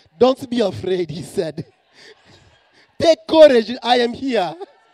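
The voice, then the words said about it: Put-on African accent. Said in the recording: “I'm going to give Jesus an African accent just because I can.”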